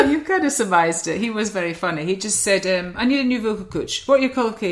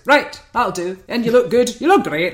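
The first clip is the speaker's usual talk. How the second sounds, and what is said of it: Imitates another person's voice, sounds Scottish. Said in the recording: “I can't do the accent. It just sounds Scottish, doesn't it? ... It does. ... It's like he's in the room.”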